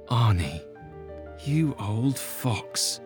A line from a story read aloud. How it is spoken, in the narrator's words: he muttered